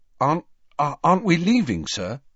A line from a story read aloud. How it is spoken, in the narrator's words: Harry asked anxiously